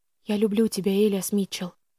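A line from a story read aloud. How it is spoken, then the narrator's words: Whispered. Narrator (Russian): прошептала я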